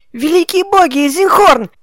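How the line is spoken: Indignant yell. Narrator (Russian): Возмущенно завопила она

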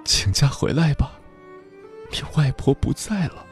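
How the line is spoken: Sobbing over phone. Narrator (Chinese): 电话那头传来的哭声里，混杂着

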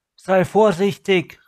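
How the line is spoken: Mermaid calling after. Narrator (German): rief die Meerfrau nach

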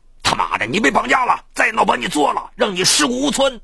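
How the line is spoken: Fierce roar. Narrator (Chinese): 一个操普通话的声音凶狠地吼道

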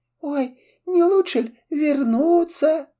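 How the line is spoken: Sobbing. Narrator (Russian): И зарыдала корыта

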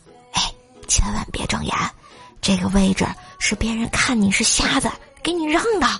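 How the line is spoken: Whisper. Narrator (Chinese): 他凑到我耳边小声的说

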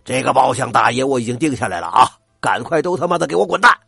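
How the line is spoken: Roaring. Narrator (Chinese): 过江龙吼道

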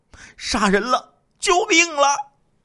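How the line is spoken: Loud cry for help. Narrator (Chinese): 何家文大声的呼喊说

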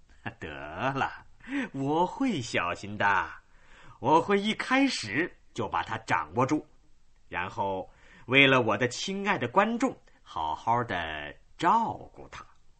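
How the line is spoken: Smiling. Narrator (Chinese): 丹尼微笑着说

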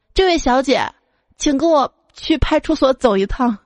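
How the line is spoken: Loud, deeply embarrassed. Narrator (Chinese): 羞愧难当之际，他大声跟她说

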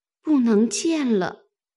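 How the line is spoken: Sighing. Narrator (Chinese): 他叹了一口气，说

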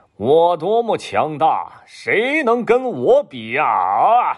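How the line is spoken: Loud boastful shouting. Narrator (Chinese): 他每经过一个地方，都会大声的呼喊

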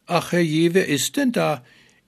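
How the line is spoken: Faint call from inside. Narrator (German): rief schwach von innen es heraus

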